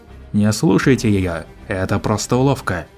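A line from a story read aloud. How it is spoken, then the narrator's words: Old man's loud, hoarse, steady voice. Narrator (Russian): Громкий, хриплый голос старика не дрогнул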